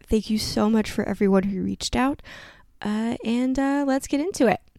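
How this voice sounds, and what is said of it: Slightly off, unwell-sounding voice. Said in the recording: “my voice is a little funky this week or if I get some weird pauses. I am still coughing”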